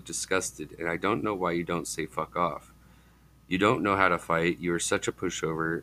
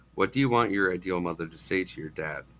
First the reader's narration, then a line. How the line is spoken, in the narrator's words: I asked